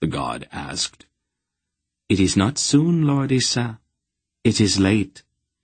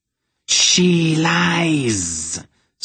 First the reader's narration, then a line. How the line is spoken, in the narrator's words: Salmisra shrieked